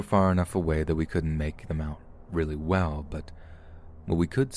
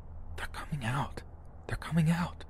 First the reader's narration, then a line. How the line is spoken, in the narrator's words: Joe hissed